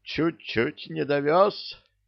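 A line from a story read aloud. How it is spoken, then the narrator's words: Mournful voice. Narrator (Russian): скорбным голосом заявил Кощей, продолжая трястись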